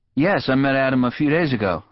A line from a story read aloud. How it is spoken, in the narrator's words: I said